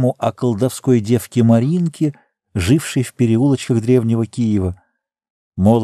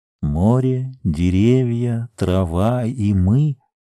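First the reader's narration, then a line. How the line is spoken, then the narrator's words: Low, muffled, strange voice. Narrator (Russian): сказала Сима низко и глухо, каким-то чужим голосом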